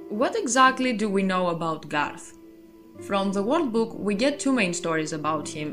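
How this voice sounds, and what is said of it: Non-native English accent. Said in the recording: “I am not a native English speaker, so I really hope the accent is bearable”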